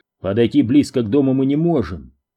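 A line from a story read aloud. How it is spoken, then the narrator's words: Plain. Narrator (Russian): сказал Дью Филлипс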